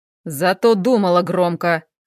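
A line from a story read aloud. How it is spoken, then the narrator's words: Growling. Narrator (Russian): рыкнул Хэл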